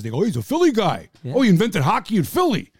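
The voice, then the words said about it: Bad put-on Philly-New Jersey accent. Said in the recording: “that terrible accent. That's sort of a Philly, New Jersey accent”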